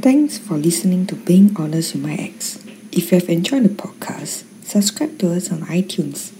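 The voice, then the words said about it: Singaporean English accent. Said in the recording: “who is based in Singapore ... international outros ... the outro in a different accent”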